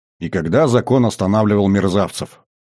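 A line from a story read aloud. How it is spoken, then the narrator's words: Irritated snort. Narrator (Russian): раздраженно фыркнул Всеволод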